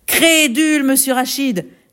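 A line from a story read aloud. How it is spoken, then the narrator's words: Arrogant shout. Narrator (French): cria l'arrogant Buteau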